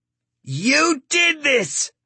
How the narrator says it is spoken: Starkey screams

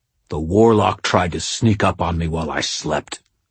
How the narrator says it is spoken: Morgan spat

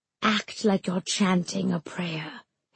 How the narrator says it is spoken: hissed Kamala in my ear

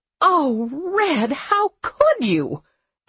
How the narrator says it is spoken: Abby wailed

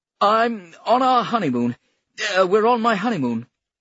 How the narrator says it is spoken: he blurted out

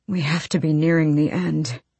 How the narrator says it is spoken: he breathed

